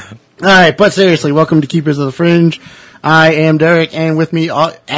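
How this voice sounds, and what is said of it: Usual voice. Nothing is said of it.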